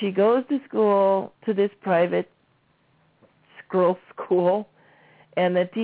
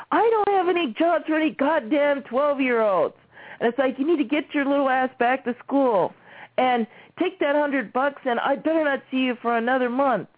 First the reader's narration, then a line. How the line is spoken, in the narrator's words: he starts yelling like the typical Italian, starts yelling at the top of his lungs